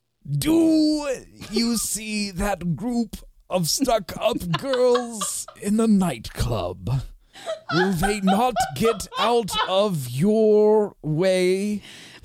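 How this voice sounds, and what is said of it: David Attenborough impression. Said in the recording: “pick the accent that I do this in ... David Attenborough ... I was thinking Attenborough”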